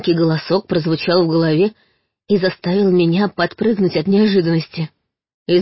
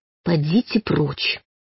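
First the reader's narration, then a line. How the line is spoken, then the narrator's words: Barely audible whisper. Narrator (Russian): едва слышно прошептала я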